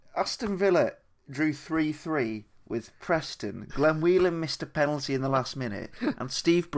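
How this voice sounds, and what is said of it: Usual voice. Nothing is said of it.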